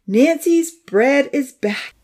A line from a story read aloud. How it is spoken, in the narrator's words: she laughed